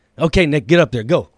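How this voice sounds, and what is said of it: Imitated Guatemalan accent. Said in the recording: “his dad's Guatemalan ... Say that accent again.”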